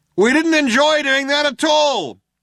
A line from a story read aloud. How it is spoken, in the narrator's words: shouted the other cop